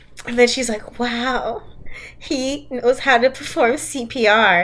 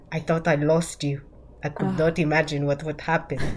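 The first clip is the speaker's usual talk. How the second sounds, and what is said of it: Unidentified put-on accent. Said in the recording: “I don't know what this accent is, but it is what it is. ... It's good enough.”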